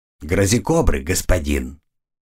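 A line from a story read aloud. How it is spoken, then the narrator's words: Growling. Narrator (Russian): прорычал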